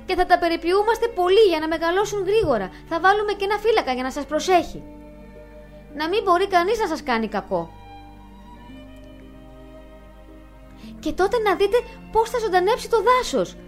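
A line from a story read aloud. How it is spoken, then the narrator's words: Excited shout. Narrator (Greek): φωνάζει ενθουσιασμένη η Ηλέκτρα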